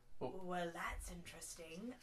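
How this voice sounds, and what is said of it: Jack Sparrow pirate character voice. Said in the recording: “my best Jack Sparrow impression.”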